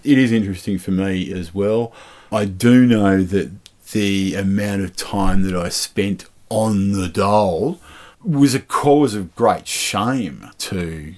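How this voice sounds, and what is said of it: Broad Australian accent. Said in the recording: “you actually speak with a broader Australian accent than I do most of the time”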